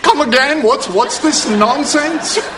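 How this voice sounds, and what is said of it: Put-on English accent. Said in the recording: “What's happening to your accent? ... I'm not English. I'm from Long Island. ... the accent just came out.”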